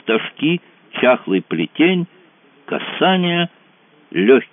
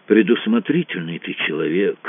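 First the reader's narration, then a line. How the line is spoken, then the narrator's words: Grumbling. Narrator (Russian): проворчал Кацуба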